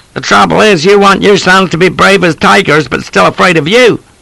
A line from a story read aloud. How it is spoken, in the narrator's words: Watson was on the verge of tears, shouting